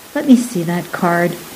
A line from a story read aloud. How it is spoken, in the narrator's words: he interrupted softly